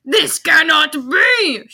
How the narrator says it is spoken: she shouted angrily

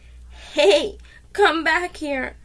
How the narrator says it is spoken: Sean cried

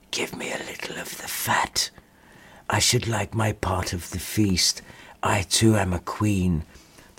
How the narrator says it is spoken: she heard a little whispering voice say

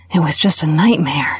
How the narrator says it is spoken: she breathed

